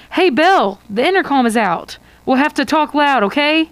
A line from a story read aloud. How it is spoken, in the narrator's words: you shout to Isabel